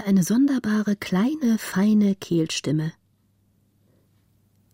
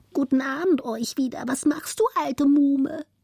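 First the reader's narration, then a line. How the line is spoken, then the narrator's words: Rat's thin piping voice. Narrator (German): pfiff die zweite Ratte mit feiner Stimme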